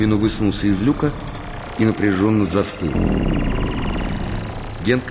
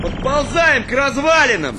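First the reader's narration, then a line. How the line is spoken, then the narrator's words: Shouted into radio. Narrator (Russian): закричал он в рацию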